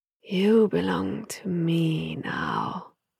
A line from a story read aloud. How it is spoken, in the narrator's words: the voice hissed in his ear